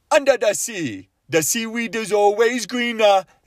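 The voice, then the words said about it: Jamaican accent imitating Sebastian. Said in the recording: “you can only do that accent when you're doing the crab, when you're doing Sebastian from Little Mermaid ... can you do a Jamaican accent?”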